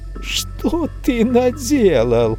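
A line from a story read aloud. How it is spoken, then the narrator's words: Shrill squeal. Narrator (Russian): взвизгнул он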